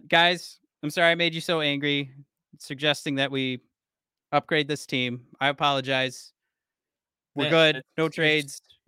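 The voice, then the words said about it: Sarcastic mock apology. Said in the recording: “You're still being sarcastic, man.”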